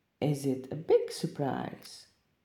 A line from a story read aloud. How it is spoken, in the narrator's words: asked Leaf